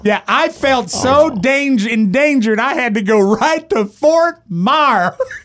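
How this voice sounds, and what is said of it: Put-on Southern accent. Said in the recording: “that's a southern accent you were doing just then.”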